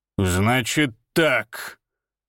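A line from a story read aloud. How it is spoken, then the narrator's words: Growl. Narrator (Russian): прорычал он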